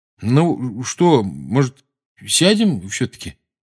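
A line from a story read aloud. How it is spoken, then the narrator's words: Hesitant suggestion. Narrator (Russian): неуверенно предложил Рон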